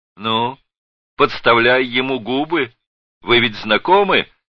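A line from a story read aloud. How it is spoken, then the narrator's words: Cheerful shout. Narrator (Russian): весело крикнул Зых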